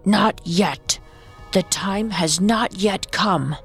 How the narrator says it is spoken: Morgiana lowered her voice as deeply as she could and replied gruffly

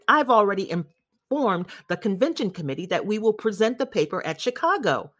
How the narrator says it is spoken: Professor Niemer shouted

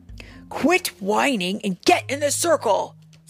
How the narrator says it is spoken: snapped Kai

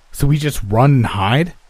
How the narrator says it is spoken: I snapped

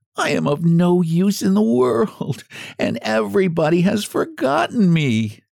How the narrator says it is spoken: moaned

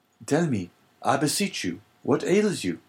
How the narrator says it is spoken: cried Dante

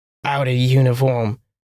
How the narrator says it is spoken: scoffed in disgust

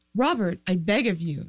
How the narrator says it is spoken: Ned pleaded

